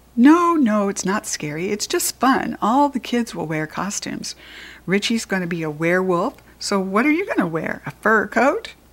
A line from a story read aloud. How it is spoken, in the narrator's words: laughed at his own joke